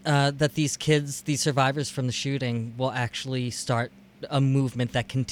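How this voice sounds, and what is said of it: Usual voice. Nothing is said of it.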